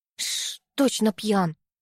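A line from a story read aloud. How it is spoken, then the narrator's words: Whispered grumble. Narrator (Russian): проворчала шепотом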